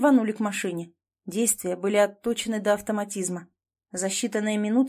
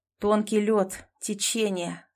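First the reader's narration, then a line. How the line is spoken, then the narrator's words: Through gritted teeth. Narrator (Russian): сквозь зубы процедил Захар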